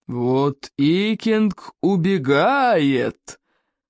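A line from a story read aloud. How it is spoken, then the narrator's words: Thundering voice. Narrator (Russian): прогремел Стоик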